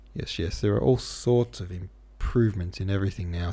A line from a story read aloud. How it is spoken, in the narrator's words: said Oblonsky, with a moist and beautiful yawn